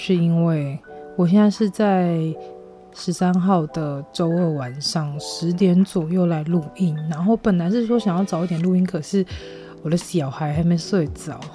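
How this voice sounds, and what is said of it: Quiet, lowered-volume speech. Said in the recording (Chinese): “为什么声音有点小声？ ... 这一集呢声音会比较压低音量”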